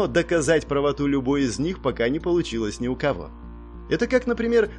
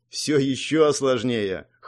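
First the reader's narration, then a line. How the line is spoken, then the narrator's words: Snorting reply. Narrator (Russian): хмыкнув, ответила Фанг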